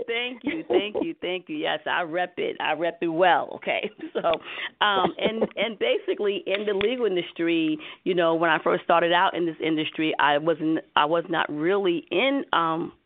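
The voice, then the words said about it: New York accent. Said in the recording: “That beautiful accent. I love a New York accent.”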